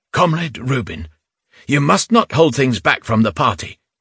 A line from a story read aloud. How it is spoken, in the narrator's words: she sat back in her chair and said firmly